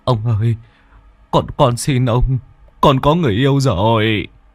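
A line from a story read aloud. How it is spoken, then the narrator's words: Dreaming, tearful whimper. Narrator (Vietnamese): Trong giấc mơ, bố mếu máo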